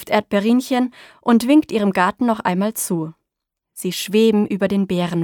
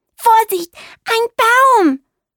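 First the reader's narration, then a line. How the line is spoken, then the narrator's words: Calling out. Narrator (German): ruft Bibo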